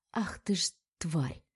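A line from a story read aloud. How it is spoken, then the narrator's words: Growling through teeth. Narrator (Russian): рычит Милана сквозь зубы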